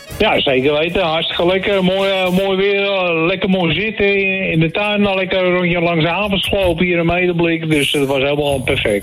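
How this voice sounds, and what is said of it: North Holland Dutch accent. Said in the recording (Dutch): “een heel fijn Noord-Hollands accent ... een prachtig accent”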